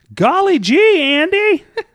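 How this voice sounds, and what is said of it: Put-on Southern accent. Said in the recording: “with the southern accent”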